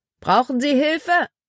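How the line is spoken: Calling out to someone. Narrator (German): Er rief einem Rothemd zu

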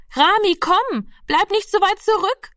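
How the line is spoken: Call repeated. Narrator (German): rief die Schwester schon wieder

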